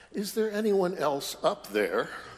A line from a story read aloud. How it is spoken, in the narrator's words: in a very timid voice, the man says